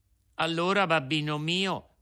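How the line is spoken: Plain. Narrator (Italian): disse Pinocchio

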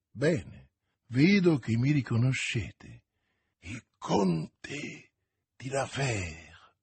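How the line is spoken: Fearful murmur. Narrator (Italian): mormorò Milady impallidendo

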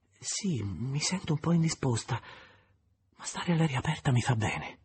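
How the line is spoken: Faint weak voice. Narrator (Italian): La signora de Renal, dicendo con voce fievole

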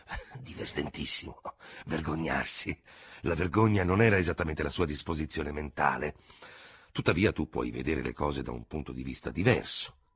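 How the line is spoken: Grumbling. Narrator (Italian): il dottore mormorava

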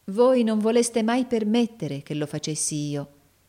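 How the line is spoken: Loving reproach. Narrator (Italian): disse Nicola in tono di amorevole rimprovero

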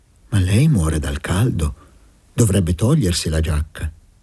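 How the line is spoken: Motherly tone. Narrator (Italian): gli disse con tono materno

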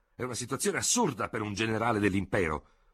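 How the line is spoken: Shouted with dismayed conviction. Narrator (Italian): gridò Ferraud, con accenti di profonda e sbigottita convinzione

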